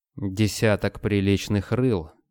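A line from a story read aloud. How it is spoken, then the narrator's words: Wry snort. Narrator (Russian): Марисабель хмыкнула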